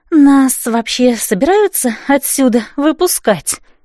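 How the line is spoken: Moaning complaint. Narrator (Russian): простонала Катриона

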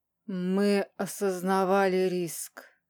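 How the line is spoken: Cold, flat, dissonant voice. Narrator (Russian): продолжил он таким диссонирующим, холодным, ровным голосом

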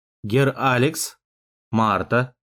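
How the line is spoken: Serious solemn tone. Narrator (Russian): сказал он серьезным и торжественным тоном

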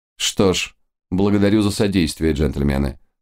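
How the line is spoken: Dry, curt. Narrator (Russian): сухо кивнул месье Ренар

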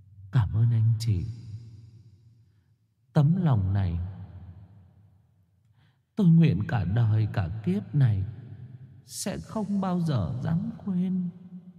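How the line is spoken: Soft, barely moving lips. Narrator (Vietnamese): Cô khẽ mấp máy miệng

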